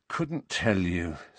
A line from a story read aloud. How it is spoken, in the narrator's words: said Harry wearily